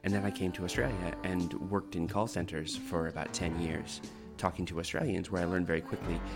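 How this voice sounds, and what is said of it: Canadian accent, not strongly regional. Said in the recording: “I'm originally Canadian myself ... doesn't sound very Australian, that accent ... my accent isn't particularly regional Canadian”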